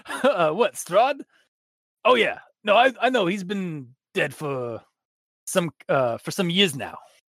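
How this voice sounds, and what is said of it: Put-on accent that keeps shifting. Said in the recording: “I'm trying to do an accent. It's not. It's switching. It's rotating.”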